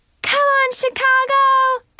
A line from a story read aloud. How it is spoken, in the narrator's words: shouted